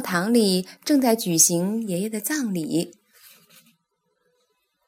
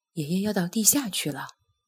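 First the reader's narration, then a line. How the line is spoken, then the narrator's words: Quiet question. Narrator (Chinese): 艾斯本小声地问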